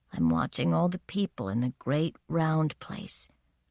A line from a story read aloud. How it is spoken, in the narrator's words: said, in a small voice as if from far away